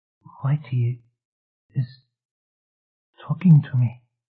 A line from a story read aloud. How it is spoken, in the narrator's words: she whispered